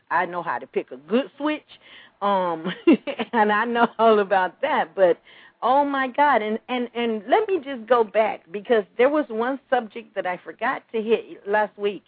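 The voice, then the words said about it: Southern Georgia accent. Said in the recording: “I'm from Georgia. You could tell from my voice.”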